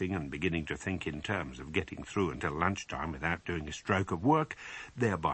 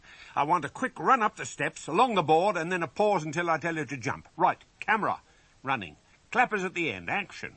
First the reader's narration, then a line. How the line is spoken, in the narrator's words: he shouted in parade ground style